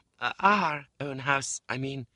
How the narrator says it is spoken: faltered my mother, evidently frightened

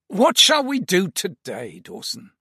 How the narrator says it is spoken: Basil asked me with a sigh

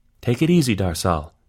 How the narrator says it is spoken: Yonis said

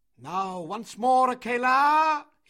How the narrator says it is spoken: cried

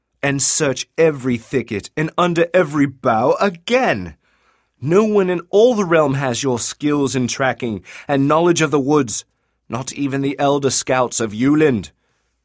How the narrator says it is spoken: Kalium exclaimed

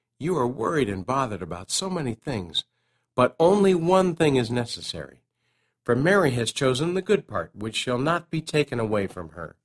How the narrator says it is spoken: whispered

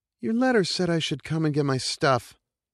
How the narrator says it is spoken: whined

